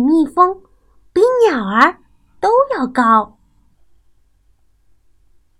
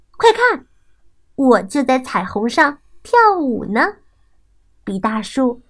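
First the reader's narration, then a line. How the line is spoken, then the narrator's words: Laughing. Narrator (Chinese): 小狐狸笑起来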